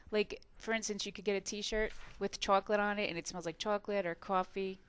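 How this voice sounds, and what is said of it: New Jersey accent. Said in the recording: “my New Jersey accent”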